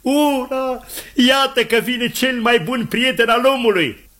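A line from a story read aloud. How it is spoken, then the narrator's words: Exclaiming. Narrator (Romanian): Scott exclamă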